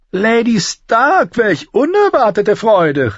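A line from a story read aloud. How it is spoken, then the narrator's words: Called out. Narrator (German): rief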